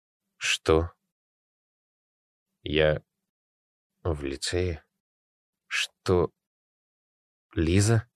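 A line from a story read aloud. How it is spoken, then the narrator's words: Puzzled hoarse rasp. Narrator (Russian): прохрипел он, озадаченно хмурясь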